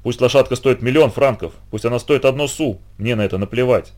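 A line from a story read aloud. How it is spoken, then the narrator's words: Exclaimed. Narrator (Russian): воскликнул Габи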